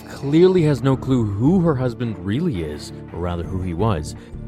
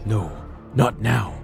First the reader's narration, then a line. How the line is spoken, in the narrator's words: the man freezes in terror, mumbling